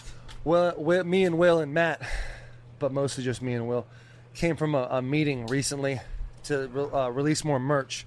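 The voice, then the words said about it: Out of breath. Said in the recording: “why am I so out of breath”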